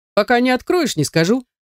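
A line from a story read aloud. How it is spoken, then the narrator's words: Curator's cheerful answer. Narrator (Russian): весело ответил куратор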